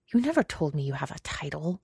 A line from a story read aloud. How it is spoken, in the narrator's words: he hisses